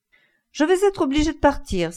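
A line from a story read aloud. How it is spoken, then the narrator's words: Exclaiming with sudden laughter. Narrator (French): s'exclama Lady Henry, rompant le silence d'un intempestif éclat de rire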